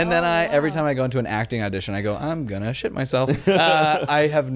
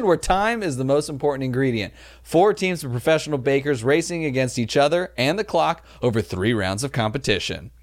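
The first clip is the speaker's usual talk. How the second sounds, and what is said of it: Imitates a TV show announcer voice. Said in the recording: “You sound just like the guy... you really do. a really good impersonation.”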